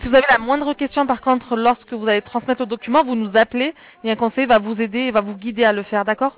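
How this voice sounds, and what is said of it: Southern French accent. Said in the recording (French): “le super accent du Sud... Plus au Sud encore.”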